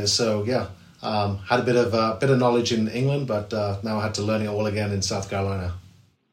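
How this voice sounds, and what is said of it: English accent. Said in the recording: “I grew up in England, and as you know, you can probably tell from my accent”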